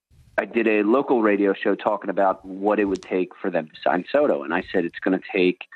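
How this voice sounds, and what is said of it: Philadelphia-area accent. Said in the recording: “I'm from the Philadelphia area, as you can hear from my terrible accent.”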